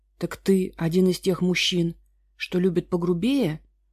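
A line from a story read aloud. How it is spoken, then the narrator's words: Choked strained rasp. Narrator (Russian): С трудом прохрипела она, пока Виктор сжимал ее горло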